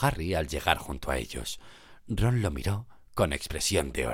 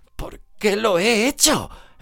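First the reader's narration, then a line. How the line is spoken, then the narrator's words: Desperate exclamation. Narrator (Spanish): exclamó con desesperación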